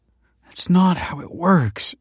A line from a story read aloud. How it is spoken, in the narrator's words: groaned